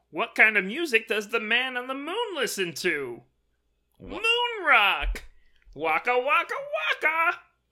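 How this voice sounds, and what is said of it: Fozzie Bear character voice. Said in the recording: “your Fozzie impression”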